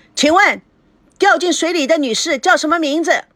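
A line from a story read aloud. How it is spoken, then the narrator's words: Startling, forceful voice. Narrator (Chinese): 他的声音震动了赵熙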